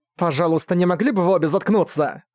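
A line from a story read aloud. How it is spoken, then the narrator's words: Growling. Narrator (Russian): Прорычала я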